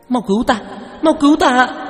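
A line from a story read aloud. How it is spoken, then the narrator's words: Panicked scream, female ghost. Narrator (Vietnamese): Nữ quỷ biến sắc, hét lên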